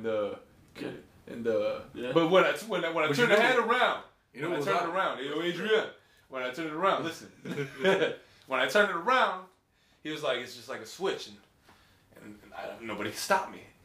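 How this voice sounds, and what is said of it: Bad Sylvester Stallone impression. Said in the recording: “bad Stallone impression, but it's my impression”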